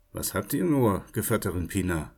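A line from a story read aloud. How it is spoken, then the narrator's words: Calm, head lowered question. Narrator (German): ruhig, den Kopf gesenkt, und fragte sie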